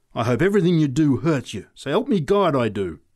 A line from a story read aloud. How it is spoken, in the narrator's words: she said savagely